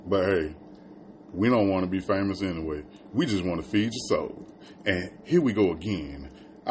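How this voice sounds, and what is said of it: Radio DJ announcer voice. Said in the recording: “I need to work on my radio voice”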